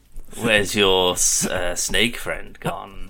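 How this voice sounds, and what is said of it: Mock scary villain voice, sounds seductive. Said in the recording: “I could do a good scary voice ... What would your Shere Khan voice be? ... It just sounds like you're trying to seduce him.”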